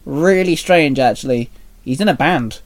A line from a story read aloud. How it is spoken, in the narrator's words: Dante chuckled